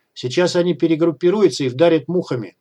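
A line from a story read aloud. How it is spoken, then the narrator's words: Shouted. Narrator (Russian): крикнул Трэш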